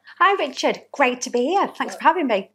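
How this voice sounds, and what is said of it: Slight Yorkshire accent. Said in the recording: “a bit of a twang in your accent ... a little bit of a twang, and it's a Yorkshire twang ... I don't think I sound that Yorkshire anymore, but apparently I do.”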